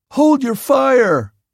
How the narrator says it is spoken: yelled

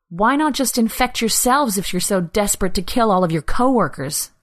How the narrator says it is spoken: Anna spat out, anger rising through the numbness she'd been living in for weeks

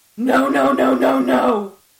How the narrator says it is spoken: I screamed

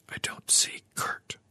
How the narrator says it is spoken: whispered

